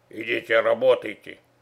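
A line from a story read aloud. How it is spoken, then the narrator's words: Rude interruption. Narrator (Russian): Грубо оборвал он мой жалкий лепет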